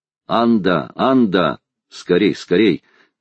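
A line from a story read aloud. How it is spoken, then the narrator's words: Thunderous shout. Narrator (Russian): крикнул громовым голосом Талькав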